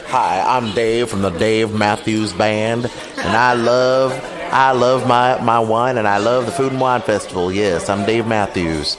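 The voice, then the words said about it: Poor imitation, drunken country-bar voice. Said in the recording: “your imitation of Dave Matthews sounds nothing like him at all. It's like Dave had one too many drinks and was hanging out in a country bar.”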